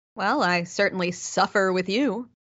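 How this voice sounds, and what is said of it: Sarcastic delivery. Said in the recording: “My Vulcan ears detect some sarcasm there”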